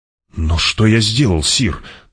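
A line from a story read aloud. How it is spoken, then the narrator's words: Trembling voice, question. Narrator (Russian): дрожащим голосом спросил не фут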